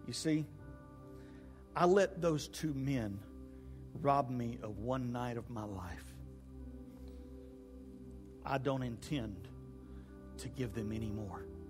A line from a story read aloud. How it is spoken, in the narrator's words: Molly slowly spoke and finished her statement to the doctor and said